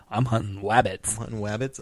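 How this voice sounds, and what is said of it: Cartoon character voice. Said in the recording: “Do you think you could do like an Elmer”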